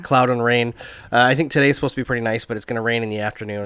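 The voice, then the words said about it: Voice slightly off from illness. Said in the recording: “I'm a little bit under the weather, so I apologize to everyone if my voice is a little bit annoying”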